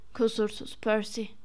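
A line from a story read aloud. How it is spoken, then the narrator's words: Muttering. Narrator (Turkish): diye mırıldandı Fred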